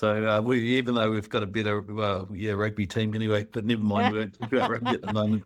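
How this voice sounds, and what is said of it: New Zealand accent. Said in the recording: “moved over from New Zealand ... everyone's got an accent ... I'm not Australian and I'm not South African ... You usually get called South African”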